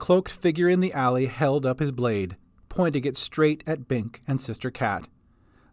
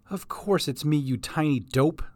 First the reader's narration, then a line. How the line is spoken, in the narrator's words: said the man